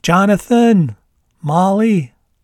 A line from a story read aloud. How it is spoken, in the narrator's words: Mom yelled the words in her loudest voice